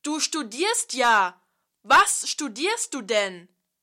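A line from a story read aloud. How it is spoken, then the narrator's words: Shouted. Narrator (German): Er schrie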